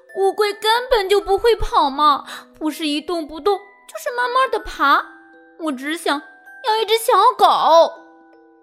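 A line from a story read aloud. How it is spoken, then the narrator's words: Crying out. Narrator (Chinese): 鲁迪哭喊道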